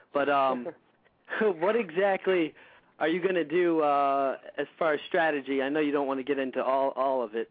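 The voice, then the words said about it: Voice affected by a cold. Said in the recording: “my voice is holding up pretty well. I have a bad cold.”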